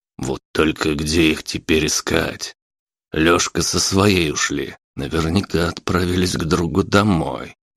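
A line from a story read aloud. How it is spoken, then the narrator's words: Muttering to himself. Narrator (Russian): бормотал себе под нос Василий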